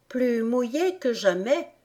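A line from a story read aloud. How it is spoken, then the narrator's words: Melancholy voice. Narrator (French): déclara Alice d'une voix mélancolique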